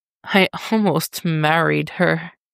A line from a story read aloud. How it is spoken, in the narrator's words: Dick chuckles weakly